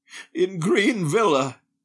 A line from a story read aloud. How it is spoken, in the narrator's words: he gasped